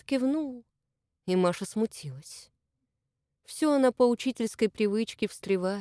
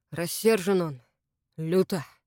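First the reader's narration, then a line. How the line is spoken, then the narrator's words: Reluctant mutter. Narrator (Russian): неохотно буркнул Игнат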